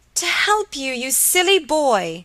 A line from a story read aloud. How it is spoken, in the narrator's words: cried Helen